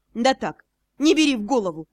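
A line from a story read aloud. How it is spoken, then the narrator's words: Snorting chuckle. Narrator (Russian): хмыкнул Ас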